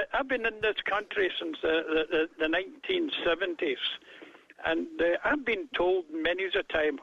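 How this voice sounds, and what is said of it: Non-American accent. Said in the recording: “because of my accent. ... You're not an American.”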